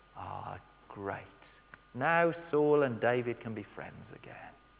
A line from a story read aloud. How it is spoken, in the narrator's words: breathe a sigh of relief and say